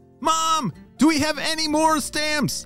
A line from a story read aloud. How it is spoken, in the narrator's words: shouted Jane